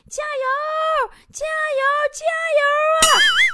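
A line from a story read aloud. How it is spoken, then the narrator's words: Shouting from behind. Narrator (Chinese): 一个骑电动车的人呐，在公交车后边喊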